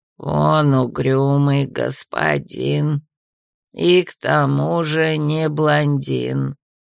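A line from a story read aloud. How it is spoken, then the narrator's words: Creaky mechanical voice. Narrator (Russian): проскрипело механическое нутро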